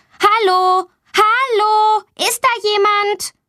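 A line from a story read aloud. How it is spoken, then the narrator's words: Loud calling. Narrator (German): Sie ruft laut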